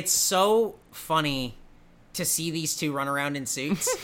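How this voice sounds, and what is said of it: Usual voice. Nothing is said of it.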